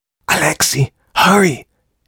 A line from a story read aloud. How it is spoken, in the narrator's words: hissed Dragol